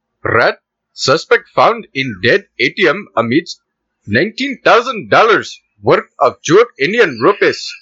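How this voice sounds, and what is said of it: Put-on Indian accent. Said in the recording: “I, don't even know if I can do that accent anymore without laughing ... The Indian accent ... Read just read the title on the accent.”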